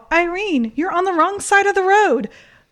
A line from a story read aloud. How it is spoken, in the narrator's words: Mom yelled out